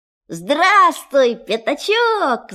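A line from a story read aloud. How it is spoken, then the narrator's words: Shouting. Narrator (Russian): закричал Винни-Пух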